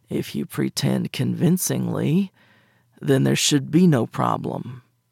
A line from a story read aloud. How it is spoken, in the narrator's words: he said, a cross between a grumble and a growl